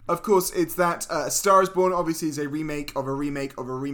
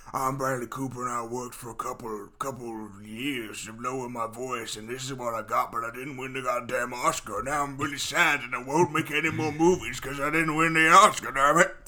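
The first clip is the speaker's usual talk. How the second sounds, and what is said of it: Imitates another person's voice. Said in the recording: “this also stars Bradley Cooper doing this kind of voice.”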